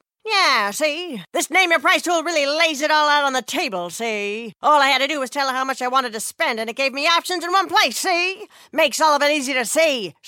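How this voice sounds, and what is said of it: 1930s gangster voice impression. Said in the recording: “this is my impression of a 1930s gangster”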